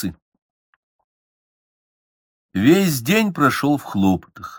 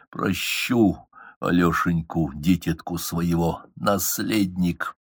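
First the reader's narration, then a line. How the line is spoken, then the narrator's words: Whisper. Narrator (Russian): Петр прошептал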